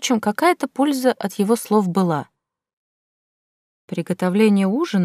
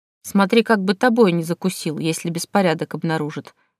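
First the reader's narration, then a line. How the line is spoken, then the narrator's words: Grumbling. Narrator (Russian): проворчала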